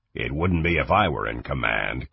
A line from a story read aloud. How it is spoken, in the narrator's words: Kang growled